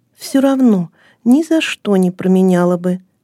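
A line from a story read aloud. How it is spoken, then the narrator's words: Calm girl's answer. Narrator (Russian): спокойно ответила девочка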